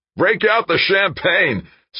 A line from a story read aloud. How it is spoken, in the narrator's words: yelled